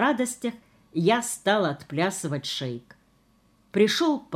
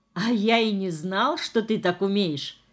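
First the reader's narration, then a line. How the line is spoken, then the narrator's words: Laughing. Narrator (Russian): смеялся он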